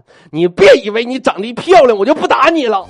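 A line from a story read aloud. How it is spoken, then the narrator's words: Shouting. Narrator (Chinese): 大威突然间想起来我教他那招了，冲他媳妇儿就喊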